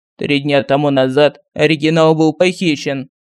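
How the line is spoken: Level, even voice. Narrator (Russian): ровным голосом сообщил дубль

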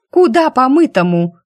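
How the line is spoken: Feisty exclamation. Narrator (Russian): боевито воскликнула человечка

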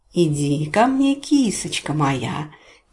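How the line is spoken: Cooing baby talk. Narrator (Russian): сюсюкал тем временем Рикки

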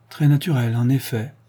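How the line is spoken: Sighing. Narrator (French): dit Jones en soupirant

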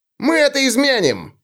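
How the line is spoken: Yelled. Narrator (Russian): завопил Улли

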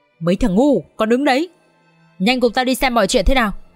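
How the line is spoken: Harsh growl. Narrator (Vietnamese): Lão Hổ gằn giọng

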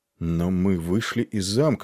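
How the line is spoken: Plain. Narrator (Russian): сказал Нед

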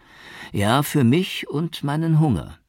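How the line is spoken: Laughing reply. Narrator (German): erwiderte Barudi und lachte

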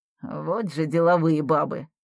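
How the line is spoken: Man muttering. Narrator (Russian): пробормотал таксист

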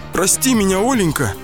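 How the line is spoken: Pleading. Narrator (Russian): взмолился ее муж

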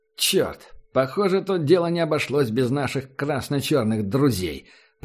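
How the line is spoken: Growled. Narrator (Russian): прорычал Вакс

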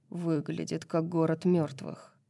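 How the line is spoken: Muttered. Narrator (Russian): пробормотал Хант

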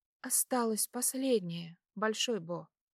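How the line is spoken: Quiet speech. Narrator (Russian): тихо сказала она

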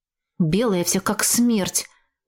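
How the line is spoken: Grumbling. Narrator (Russian): Продолжал бурчать огненный нянь

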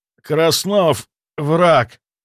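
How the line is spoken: Strained, forced out. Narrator (Russian): Успел выдавить я

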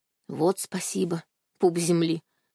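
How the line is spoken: Grumbling. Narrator (Russian): пробурчала я

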